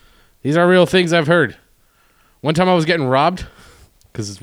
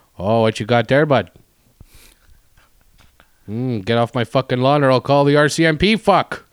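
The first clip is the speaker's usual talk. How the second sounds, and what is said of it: Put-on Manitoba Canadian accent. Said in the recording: “that's the Manitoba accent a little bit”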